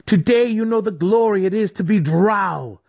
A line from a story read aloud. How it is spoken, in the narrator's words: Dinan cried